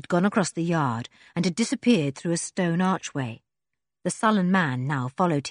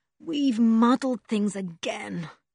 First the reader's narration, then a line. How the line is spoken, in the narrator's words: said Julian with a groan